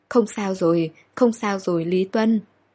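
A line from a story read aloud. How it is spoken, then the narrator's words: Shaky reassuring speech. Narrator (Vietnamese): Tay cô run rẩy nhưng miệng vẫn nói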